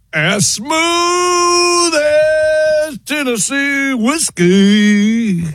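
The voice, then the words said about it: Sung with a country accent. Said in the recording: “Got the accent.”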